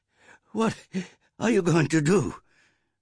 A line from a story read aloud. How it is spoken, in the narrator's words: her mother panted from her run